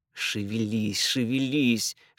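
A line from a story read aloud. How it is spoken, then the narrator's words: Urgent hiss. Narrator (Russian): шипел ей Пит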